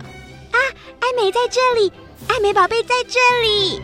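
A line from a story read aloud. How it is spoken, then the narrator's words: Sudden excited shout. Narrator (Chinese): 莎拉忽然大声叫着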